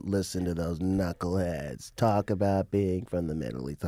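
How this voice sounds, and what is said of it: Imitates another person's voice. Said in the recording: “That's my Mitzi Shore impression ... That impression was Pauly Shore ... They do sound similar.”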